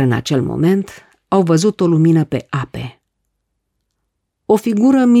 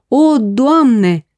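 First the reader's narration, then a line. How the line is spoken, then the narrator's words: Praying. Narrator (Romanian): se rugau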